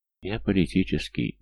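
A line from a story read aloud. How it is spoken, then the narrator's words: Sad telling. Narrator (Russian): грустно поведал он Бинга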